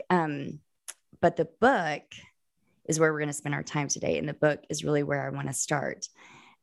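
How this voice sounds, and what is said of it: Hoarse voice. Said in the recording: “my hoarse voice today ... my hoarse voice ... this allergy symptoms”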